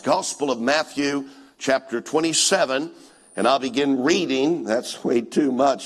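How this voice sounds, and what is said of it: Rough voice from a cold. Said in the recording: “I've gotten a cold recently, and I apologize that you're not getting to hear me this week when my voice is that normal, smooth, silky sound”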